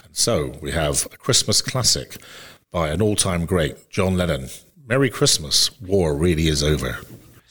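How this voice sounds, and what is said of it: Radio announcer voice. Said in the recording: “in your very best radio voice, you should introduce the song”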